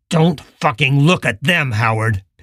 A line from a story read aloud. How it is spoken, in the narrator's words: Pill growled